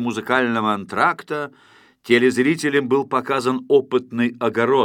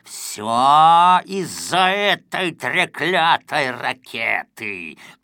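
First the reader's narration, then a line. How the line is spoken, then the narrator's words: Hissing. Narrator (Russian): прошипел он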